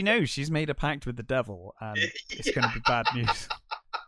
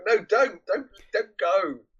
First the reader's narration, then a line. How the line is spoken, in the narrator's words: she's desperately going